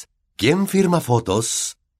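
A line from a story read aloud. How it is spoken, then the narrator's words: Loud, jovial. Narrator (Spanish): diciéndole en voz alta y tono jovial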